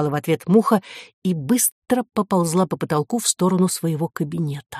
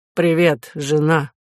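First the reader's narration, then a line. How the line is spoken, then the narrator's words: Gloomy. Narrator (Russian): сказал он мрачно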